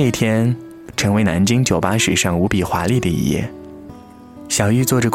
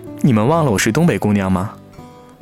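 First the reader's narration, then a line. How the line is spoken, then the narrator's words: Sly smile. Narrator (Chinese): 他冲我偷偷一笑说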